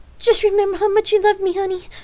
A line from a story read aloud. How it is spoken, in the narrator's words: Lark pleaded, and trying in vain to squirm free from the tight grip her lover had on her